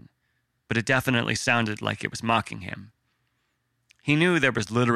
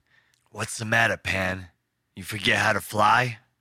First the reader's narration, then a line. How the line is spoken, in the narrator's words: Logue said with a sneer